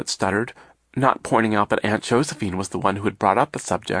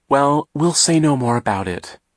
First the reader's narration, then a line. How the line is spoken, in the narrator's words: Aunt Josephine said, looking nervously at the tin cans